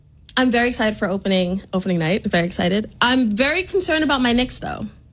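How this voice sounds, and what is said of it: New York accent. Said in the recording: “I love what she does for New York accent.”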